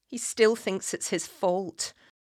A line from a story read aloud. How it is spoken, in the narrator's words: Katrina said